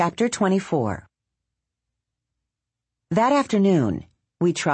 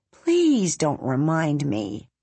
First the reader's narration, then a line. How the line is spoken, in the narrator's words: Bongo said with a sigh